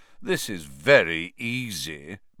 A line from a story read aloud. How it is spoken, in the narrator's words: Malfoy drawled, loud enough for Harry to hear him